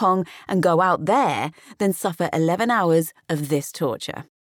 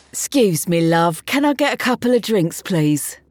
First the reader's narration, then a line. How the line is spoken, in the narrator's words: accent slurred through the curtain